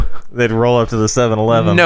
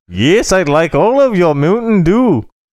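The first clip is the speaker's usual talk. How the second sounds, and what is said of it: Poor put-on Asian accent. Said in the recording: “That's a very horrible Asian accent”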